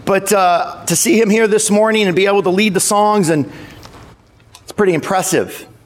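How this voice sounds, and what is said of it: Cracking, strained voice. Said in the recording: “My voice is cracking from just singing through the evening”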